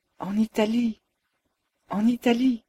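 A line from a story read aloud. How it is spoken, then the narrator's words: Whispered. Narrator (French): chuchota-t'elle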